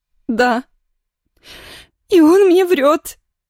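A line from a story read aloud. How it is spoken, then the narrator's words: Cry. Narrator (Russian): вскрикнула подруга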